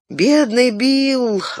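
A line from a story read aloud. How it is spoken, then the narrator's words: Sighed. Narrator (Russian): вздохнул Фродо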